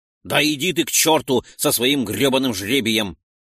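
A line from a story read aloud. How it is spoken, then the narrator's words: Snapped. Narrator (Russian): огрызнулся Ролдон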